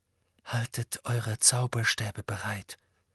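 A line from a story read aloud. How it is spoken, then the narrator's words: Quiet. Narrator (German): sagte Harry leise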